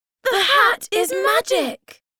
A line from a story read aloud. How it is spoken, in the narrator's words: Suddenly they shouted